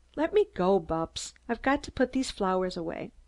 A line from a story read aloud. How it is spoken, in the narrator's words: Then earnestly